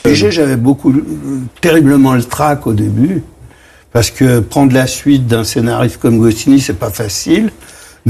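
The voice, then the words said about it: Strong working-class Parisian French accent. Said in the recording (French): “il avait cet accent parigot qu'on va reconnaître ... l'accent très parigot, très titi parisien”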